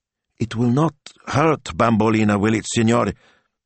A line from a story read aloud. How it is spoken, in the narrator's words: Signor Rossi asked anxiously